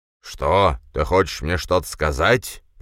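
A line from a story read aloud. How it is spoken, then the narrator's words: Deep bass voice. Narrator (Russian): пробасил он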